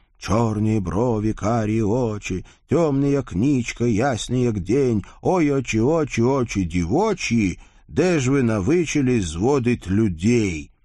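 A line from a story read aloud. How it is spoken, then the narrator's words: Rich husky male voice, distant. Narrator (Russian): Сочным, с мягкой хрипотцой мужским голосом доносилось из раскрытого окна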